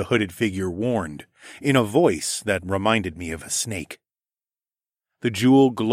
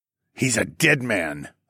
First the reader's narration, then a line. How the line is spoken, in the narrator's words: I growled